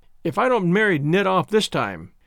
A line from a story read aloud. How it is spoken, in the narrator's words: she said triumphantly